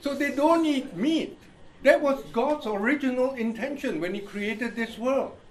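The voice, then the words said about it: Indian-accented English. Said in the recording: “You have Indian accent ... So he thinks I have Indian accent.”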